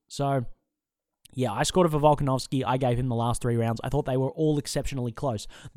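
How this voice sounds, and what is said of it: Speaks with a noticeable accent. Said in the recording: “as you can tell by my voice, I am quite biased. My accent gives that away.”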